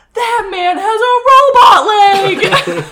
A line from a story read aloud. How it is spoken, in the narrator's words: Brooks just points and yells